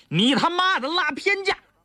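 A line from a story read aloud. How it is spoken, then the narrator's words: Roaring. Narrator (Chinese): 他一边吼着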